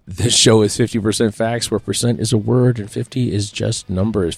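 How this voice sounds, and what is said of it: Slightly hoarse, strained voice. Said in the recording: “My voice is still a little shot, but it's better than it was.”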